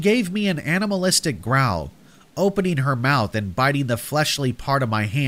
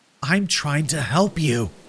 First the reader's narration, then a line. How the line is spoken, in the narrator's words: I hissed through gritted teeth